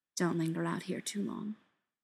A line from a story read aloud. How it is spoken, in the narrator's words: he says, and his voice is oddly soft